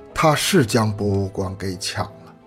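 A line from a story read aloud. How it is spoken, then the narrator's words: Sighing. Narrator (Chinese): 他叹了口气说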